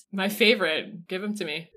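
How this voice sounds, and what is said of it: Deadpan, flat delivery. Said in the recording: “Oh, that was so deadpan.”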